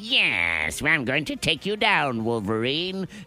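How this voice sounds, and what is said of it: Raspy sniveling villain voice. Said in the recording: “it's not even in the good raspy. Like, it's not good old man tough raspy... No, it's sniveling bad guy from an X-Men movie, raspy.”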